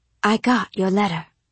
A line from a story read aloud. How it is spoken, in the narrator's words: I told her, softly, in case there were listening ears somewhere